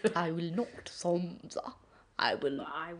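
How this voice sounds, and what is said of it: Imitates a refined posh English accent. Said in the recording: “It's a weird accent. It's not like anything I've ever heard... It's refined... it's meant to be like posh English.”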